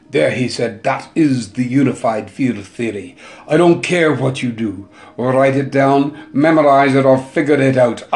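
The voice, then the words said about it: Imitated South African accent. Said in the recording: “I put the accent, he's got a wonderful, wonderful South African accent.”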